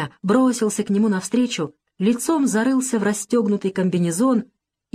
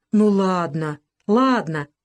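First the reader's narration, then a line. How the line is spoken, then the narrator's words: Guttural voice. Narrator (Russian): гортанным голосом говорил грузин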